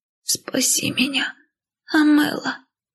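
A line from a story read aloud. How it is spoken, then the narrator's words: Hoarse whisper, sister. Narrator (Russian): Хриплый шепот сестры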